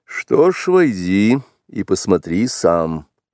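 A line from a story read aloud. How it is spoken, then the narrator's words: Dry, curt. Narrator (Russian): сухо сказал отец-волк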